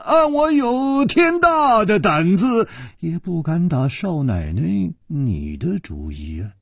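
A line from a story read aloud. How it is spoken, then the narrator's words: Sighing. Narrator (Chinese): 楚留香叹了一口气说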